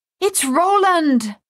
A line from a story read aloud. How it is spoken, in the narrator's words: Madame Chassé cried